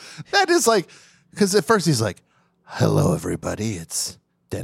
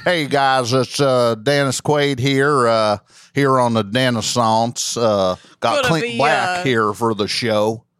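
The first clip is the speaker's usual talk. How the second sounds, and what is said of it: Put-on Southern accent. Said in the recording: “Now he's got a southern accent.”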